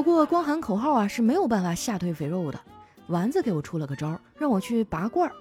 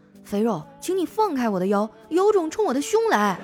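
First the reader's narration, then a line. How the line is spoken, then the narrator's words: Angry shouting. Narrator (Chinese): 气得我还就对着镜子喊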